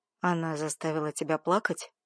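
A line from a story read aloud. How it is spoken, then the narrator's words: Hoarse, questioning. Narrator (Russian): поинтересовался хриплым голосом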